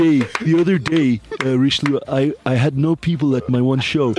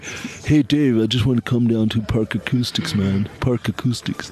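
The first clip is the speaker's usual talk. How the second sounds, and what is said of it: Imitated friend's slight accent. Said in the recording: “there's quite a little accent in the back ... You need to sound a little bit more asthmatic.”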